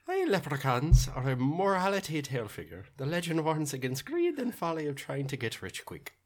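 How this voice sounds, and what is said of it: Put-on Irish leprechaun accent. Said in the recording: “you have the best accent ... leprechaun in accent ... I wish I had a good Irish accent”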